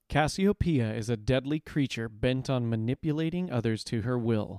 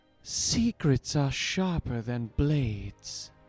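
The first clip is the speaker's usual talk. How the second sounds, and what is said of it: Put-on character voice. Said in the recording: “my terrible impression”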